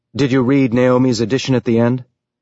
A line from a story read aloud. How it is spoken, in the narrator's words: Holden asked